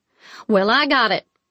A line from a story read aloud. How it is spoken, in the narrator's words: I snapped